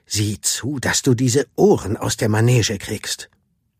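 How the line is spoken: Hissed. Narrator (German): zischte

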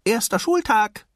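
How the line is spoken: Called out. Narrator (German): rief er seinem Vater zu

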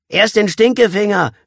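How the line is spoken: Boy calling out. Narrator (German): rief der picklige Junge

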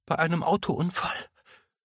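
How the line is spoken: Continued sobbing. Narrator (German): fuhr Emma schluchzend fort

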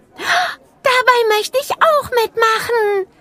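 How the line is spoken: Called out. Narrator (German): rief sie

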